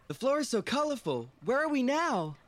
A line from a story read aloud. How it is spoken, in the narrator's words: Michael exclaimed with excitement